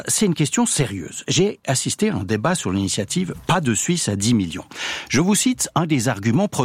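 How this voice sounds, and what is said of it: Usual voice. Nothing is said of it.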